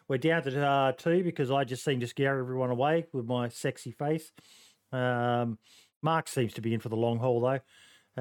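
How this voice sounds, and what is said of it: Australian accent. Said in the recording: “You like that Aussie accent, don't you, mate?”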